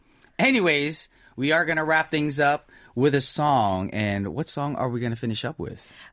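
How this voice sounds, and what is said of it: Slightly scratchy, hoarse voice. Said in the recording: “why my voice is a little scratchy today ... he made me drink too much ... That's what happened to my voice last night.”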